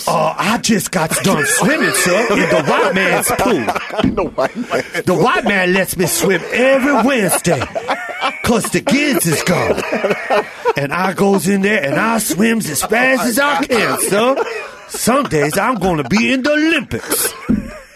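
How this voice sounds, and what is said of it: Exaggerated stereotyped accent caricature. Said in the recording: “Why am I giving you a slavery voice? ... I give him the worst black voice.”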